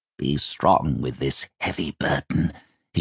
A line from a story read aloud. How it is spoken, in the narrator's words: he said quietly, speaking, it seemed, to the little bird